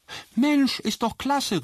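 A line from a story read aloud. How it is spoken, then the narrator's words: Called out. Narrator (German): rief schließlich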